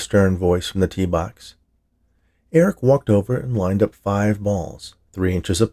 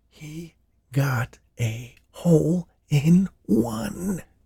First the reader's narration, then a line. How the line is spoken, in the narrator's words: The caddy's breath started coming back to him, and between huffs, he whispered to Eric